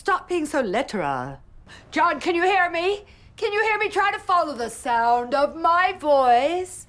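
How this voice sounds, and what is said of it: Moira Rose's odd mixed accent. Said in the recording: “Her voice is incredible, her accent. ... her accent is so odd. She's chosen this accent that is all over the place. It's Canadian, it's American, it's British, it's other things.”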